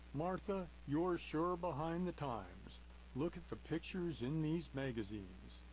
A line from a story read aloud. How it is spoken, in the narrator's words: The man laughed and replied